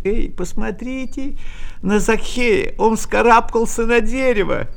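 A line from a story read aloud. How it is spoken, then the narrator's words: Merry mocking laughter. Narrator (Russian): весело смеялись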